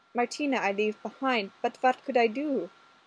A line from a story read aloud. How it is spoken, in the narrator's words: she added, giving them a pleading look